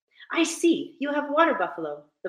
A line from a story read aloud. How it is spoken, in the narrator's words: the boy said excitedly, pumping on the pedals